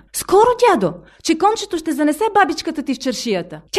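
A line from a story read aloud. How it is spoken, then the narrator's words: Encouraged young woman calling. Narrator (Bulgarian): Насърчена от присъствието му, младата жена извика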